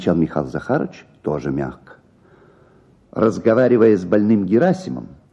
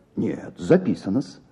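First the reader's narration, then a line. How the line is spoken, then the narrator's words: Soft gentle voice. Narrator (Russian): сказал мягко Михаил Захарович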